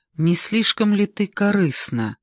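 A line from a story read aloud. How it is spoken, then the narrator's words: Plain. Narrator (Russian): сказала Миранда Ольге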